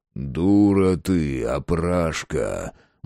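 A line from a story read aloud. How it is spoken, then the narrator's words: Grim, mocking. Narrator (Russian): Мрачно усмехнулся барин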